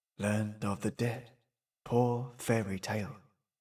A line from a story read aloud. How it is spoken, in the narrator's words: he murmured